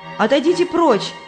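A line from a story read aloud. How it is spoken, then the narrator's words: Shouted. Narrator (Russian): крикнула Христиана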